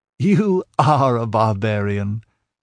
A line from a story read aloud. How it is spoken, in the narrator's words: laughed Thallus